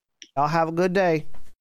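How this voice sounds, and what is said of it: Put-on Southern accent. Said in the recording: “I'm using a lot of Southern accents”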